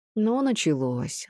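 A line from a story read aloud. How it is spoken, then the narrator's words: Sighed. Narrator (Russian): вздохнул Дулатов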